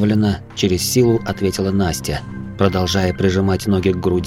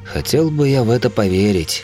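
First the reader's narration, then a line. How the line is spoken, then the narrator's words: Heavy sigh. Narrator (Russian): тяжело вздохнул Лев Игоревич, глава сильнейшего клана Рукластера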